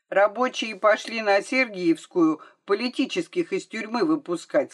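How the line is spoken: Plain. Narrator (Russian): сказал Сенька

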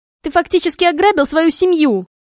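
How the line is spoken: Angry yelling. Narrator (Russian): орала она в гневе

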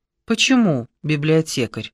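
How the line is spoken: Gently surprised man. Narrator (Russian): ласково удивился мужчина

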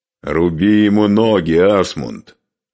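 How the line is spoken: Loud. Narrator (Russian): громко сказал Скарпи

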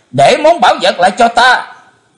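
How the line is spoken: Terrified loud shout. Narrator (Vietnamese): Chí Tôn hết đói kinh hoàng thét lớn

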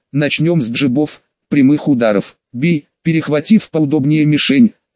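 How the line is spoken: Plain. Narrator (Russian): сказала она

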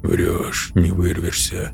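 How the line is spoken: Muttered. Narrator (Russian): пробормотал алгоритмист

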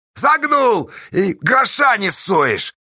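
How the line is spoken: Shout. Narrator (Russian): крикнул Поздей

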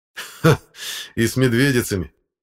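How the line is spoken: Guffawing. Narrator (Russian): захохотал второй

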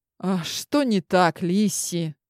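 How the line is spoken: Weary question. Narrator (Russian): Устало задал вопрос император

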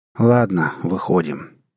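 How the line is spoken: Tired. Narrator (Russian): устало произнес капитан

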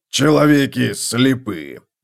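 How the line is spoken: Growled. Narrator (Russian): прорычал Готрек

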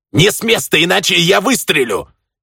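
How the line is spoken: Shouting, not shrieking. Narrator (Russian): заорал француз, не переходя на визг

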